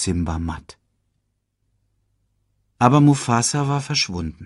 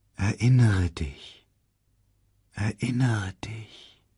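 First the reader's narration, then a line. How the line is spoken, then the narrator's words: Faint repeated voice. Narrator (German): wiederholte die Stimme schwach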